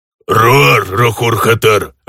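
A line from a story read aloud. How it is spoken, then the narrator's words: Orc growling. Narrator (Russian): рыкнул орк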